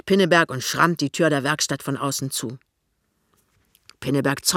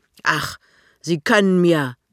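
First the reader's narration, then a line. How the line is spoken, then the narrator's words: Angry. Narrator (German): sagt wütend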